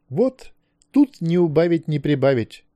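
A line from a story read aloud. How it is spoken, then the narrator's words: Joyful. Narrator (Russian): радостно сказал профессор Морган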